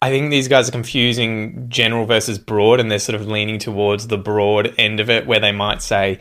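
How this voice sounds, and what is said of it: Usual voice. Nothing is said of it.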